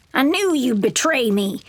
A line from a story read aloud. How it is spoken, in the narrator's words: snarls